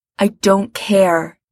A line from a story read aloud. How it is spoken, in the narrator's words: Gerard says fiercely